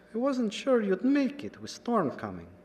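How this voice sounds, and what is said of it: Higher, gentle voice with German/Russian accent. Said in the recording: “The accent matched the one on the phone. German, Russian, maybe? ... The voice was higher and gentler than his worn appearance would suggest.”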